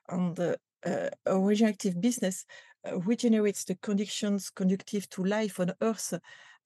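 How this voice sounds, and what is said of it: French accent. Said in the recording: “you're speaking my language and in a French accent.”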